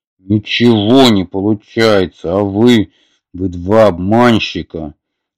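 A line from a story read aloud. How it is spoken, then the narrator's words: Growling. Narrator (Russian): зарычал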